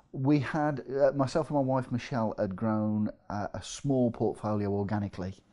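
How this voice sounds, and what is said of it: English Midlands accent. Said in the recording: “You can probably tell from my accent, I'm from the Midlands”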